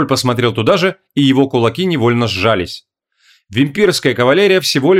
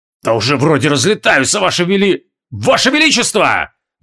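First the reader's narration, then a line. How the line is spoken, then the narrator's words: Furious shout. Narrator (Russian): В ярости крикнул Джориан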